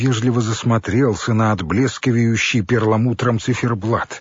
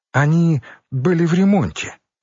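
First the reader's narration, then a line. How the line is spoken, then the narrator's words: Grandmother's exclamation. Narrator (Russian): воскликнула бабушка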